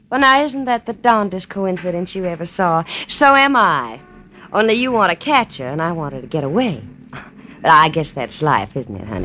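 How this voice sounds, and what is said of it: Woman with a Southern accent. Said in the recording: “a southern accent”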